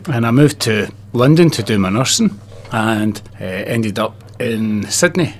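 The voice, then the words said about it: Glaswegian Scottish accent. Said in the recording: “that accent's not from down this way ... No, it's not local ... I left Glasgow, which is my home city”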